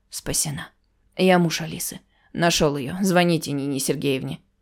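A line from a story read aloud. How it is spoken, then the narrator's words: Weak laughing mutter. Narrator (Russian): Он рассмеялся, чувствуя, как покидают силы, бормоча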